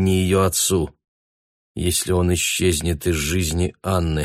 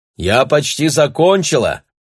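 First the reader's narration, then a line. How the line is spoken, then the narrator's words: Shout. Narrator (Russian): крикнула ему Анна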